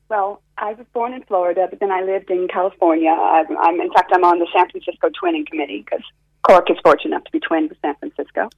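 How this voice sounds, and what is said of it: American accent. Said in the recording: “I can hear by your accent, you're not a native of... ... what part of America are you originally from?”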